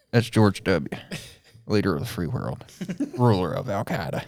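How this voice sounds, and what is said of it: Imitates another person's voice. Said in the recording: “be talking in a George W. Bush accent ... I think I've got it pretty good. I think I've done a better job of doing it ... in that Al-Qaeda ... accent”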